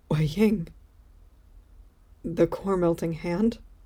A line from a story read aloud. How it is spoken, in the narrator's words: Wei Wuxian confirms quietly